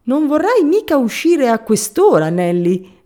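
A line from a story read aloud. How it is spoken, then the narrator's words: Shouted. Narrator (Italian): gridò Benford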